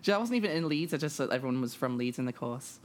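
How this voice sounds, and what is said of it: Posh English accent. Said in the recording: “This is called Posh, the accent. Posh.”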